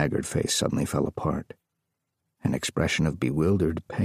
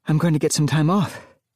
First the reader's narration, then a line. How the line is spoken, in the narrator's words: said breathlessly